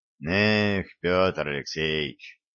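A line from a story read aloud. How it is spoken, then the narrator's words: Sighing. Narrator (Russian): вздохнул Дрожин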